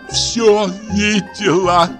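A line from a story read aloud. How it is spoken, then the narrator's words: Moaning. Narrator (Russian): простонала она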